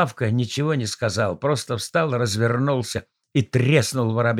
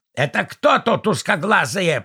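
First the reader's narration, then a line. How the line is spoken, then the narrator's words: Wheezing baboon. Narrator (Russian): просипел бабуин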